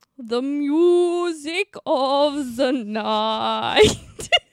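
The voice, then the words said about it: Sung put-on Scottish accent, sounding Austrian. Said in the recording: “the Scottish accent ... Sounded a bit Austrian.”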